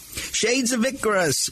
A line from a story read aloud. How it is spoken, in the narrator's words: barked Muggsy